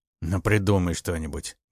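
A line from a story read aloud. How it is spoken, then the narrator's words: Grumbled. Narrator (Russian): буркнул тот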